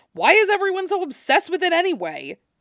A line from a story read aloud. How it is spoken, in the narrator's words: He yelped